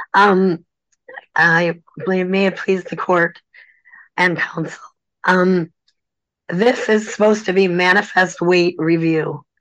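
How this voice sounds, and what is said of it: Hoarse voice. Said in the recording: “I apologize in advance for my hoarse voice.”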